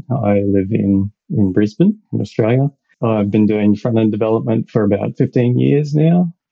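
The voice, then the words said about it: Australian accent. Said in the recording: “as you can probably tell by my accent, I'm Australian.”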